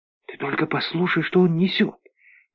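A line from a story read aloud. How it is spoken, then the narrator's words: Whisper. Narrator (Russian): прошептала она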